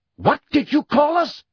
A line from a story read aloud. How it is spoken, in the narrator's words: shouted a wild-looking black centaur, whom Harry recognized as Bane